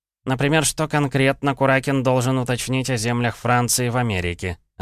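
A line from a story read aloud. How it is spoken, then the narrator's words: Plain. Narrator (Russian): ответил Павел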